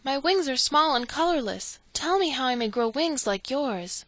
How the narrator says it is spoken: she cried

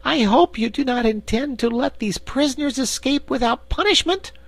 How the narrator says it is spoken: exclaimed Corporal Waddle in protest

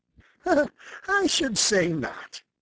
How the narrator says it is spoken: laughed Jenny

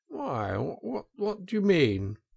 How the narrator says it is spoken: asked the Toad nervously

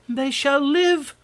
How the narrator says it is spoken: cried the other

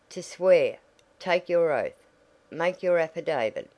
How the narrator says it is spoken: called the squire sharply

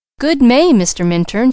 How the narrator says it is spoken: she cried, positively enchanting

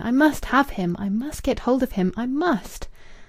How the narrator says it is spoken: She cried passionately within her brain

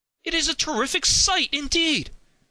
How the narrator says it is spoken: cried Henry

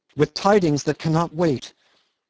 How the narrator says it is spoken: he cried at the door

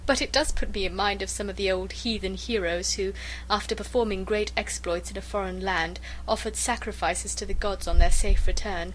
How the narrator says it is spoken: said she, laughing

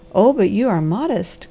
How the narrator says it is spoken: cried the harvester

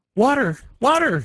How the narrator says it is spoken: he cried in his despair

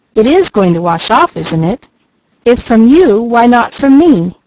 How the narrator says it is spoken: cried Leslie

